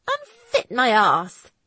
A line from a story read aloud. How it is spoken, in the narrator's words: she replied crossly, her breath coming out in fast pants